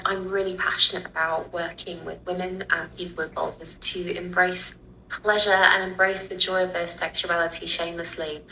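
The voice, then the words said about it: British accent, London. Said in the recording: “as you can tell, I'm from Britain. I have a British accent. So I grew up in the UK, in London”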